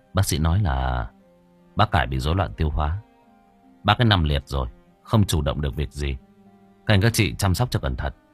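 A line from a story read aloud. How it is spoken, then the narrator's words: Cold reply. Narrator (Vietnamese): Tôi lạnh lùng đáp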